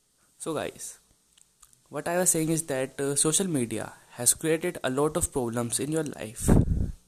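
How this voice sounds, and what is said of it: Congested voice from a cold. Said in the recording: “I'm kind of sick, I have a cold, so don't mind my voice.”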